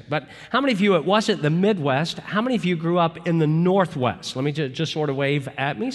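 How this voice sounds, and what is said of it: Southern drawl. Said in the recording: “if I didn't have a Southern drawl, which obviously I do ... my Southern drawl”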